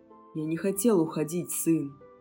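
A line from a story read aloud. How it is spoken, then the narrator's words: Quiet. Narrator (Russian): сказал он тихо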